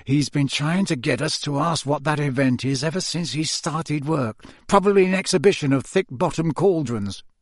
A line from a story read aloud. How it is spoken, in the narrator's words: Ron muttered to Harry and Hermione